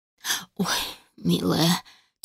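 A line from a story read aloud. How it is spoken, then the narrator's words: Mother's heavy sigh. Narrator (Russian): тяжело вздохнула матушка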